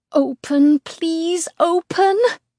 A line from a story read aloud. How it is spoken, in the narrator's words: I plead